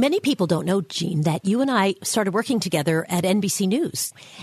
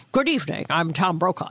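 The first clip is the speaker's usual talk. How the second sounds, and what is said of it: Imitates a news anchor's voice. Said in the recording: “not a bad impersonation... That was pretty good. That was not bad... Impressive, actually.”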